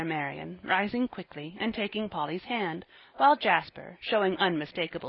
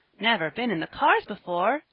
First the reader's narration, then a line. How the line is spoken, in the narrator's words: exclaimed Van